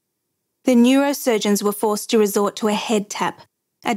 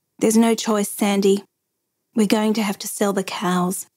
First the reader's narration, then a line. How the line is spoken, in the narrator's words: Tim said quietly